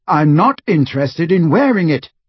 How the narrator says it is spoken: Harry said fiercely

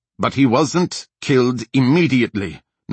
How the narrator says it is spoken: Nassar said angrily

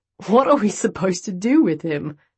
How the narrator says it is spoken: Chance chuckled as he spoke

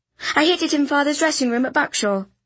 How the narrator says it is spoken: I blurted

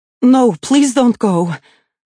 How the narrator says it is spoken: Alessia blurts out

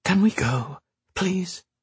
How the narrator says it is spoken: Whisper Sand said, her voice like wind moving over a desert dune

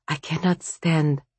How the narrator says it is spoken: Vasya whispered

